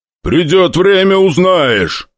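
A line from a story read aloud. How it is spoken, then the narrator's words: Demon's roar. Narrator (Russian): взревел демон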